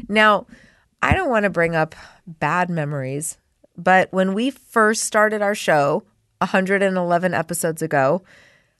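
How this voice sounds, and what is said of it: Congested voice with a cold. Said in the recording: “I have a cold. ... I might sound a little different because I'm suffering with a cold. ... mine is upper respiratory. ... In the head and in the chest.”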